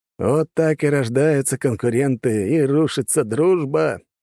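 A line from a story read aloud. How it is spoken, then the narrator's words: Chuckling. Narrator (Russian): хохотнул Черепанов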